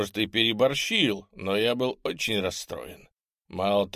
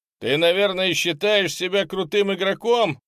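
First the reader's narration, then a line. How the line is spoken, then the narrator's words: Shouted. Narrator (Russian): крикнул я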